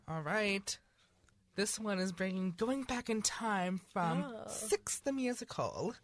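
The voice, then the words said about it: Sudden put-on accent. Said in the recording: “Where did that accent come from?”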